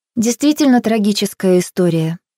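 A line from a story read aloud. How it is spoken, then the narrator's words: Sympathetic tone. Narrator (Russian): добавила сочувственным тоном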